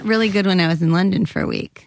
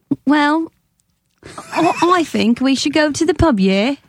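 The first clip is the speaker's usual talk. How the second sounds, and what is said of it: Put-on Cockney British accent. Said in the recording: “That's Cockney. ... It's not the worst I've ever heard.”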